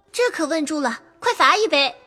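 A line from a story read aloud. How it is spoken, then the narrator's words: Laughing crowd. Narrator (Chinese): 众人笑说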